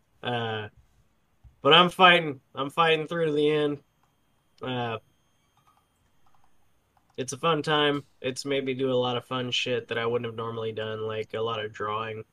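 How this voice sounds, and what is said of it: Tired, sick-sounding voice. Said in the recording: “I'm tired and sick, as you can hear in my poor voice.”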